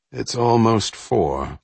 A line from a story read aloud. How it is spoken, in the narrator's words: Alden said, wearily